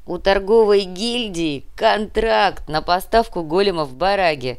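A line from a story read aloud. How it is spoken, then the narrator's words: Laughing. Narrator (Russian): рассмеялся Артем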